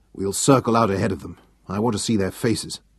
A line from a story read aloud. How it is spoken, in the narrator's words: he growled at me